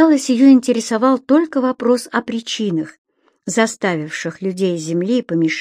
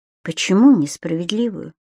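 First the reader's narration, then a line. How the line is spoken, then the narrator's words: Very quiet, completely calm. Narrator (Russian): Геонея говорила очень тихо, но совершенно спокойно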